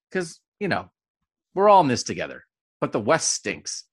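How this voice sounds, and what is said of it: Imitated New Jersey person. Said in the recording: “I'm preemptively doing a New Jersey person who is angered by my, here's my impression of Rutgers”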